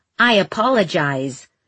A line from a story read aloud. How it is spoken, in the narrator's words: said Tristan stiffly from his awkward supine position